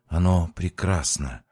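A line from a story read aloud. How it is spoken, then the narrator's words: Awed whisper. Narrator (Russian): прошептала Кэтрин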